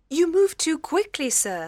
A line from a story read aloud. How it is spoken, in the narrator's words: cried